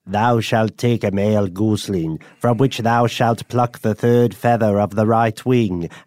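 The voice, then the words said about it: Put-on character reading voice. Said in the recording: “I'm going to do a voice.”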